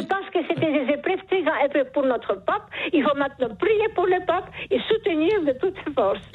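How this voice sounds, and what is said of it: Charming regional accent. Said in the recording (French): “Vous avez un charmant accent ... ce joli accent”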